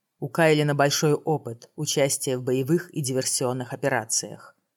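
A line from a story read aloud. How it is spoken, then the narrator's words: Plain. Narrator (Russian): сказал Тамир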